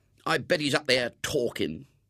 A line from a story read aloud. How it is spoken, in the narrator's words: he muttered scornfully